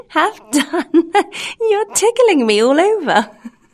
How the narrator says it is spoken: the same little voice say, laughing

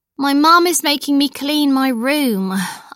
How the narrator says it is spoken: I sighed

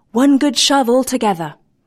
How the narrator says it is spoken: he cried

